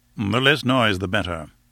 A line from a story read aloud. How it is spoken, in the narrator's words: said Lord Roxton curtly